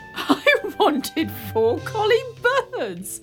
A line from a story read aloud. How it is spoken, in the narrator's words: laughed the king